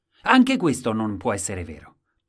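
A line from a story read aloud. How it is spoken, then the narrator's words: Plain. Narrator (Italian): disse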